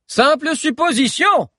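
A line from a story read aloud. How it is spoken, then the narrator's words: Distant shout. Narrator (French): cria Haussmann du fond de la salle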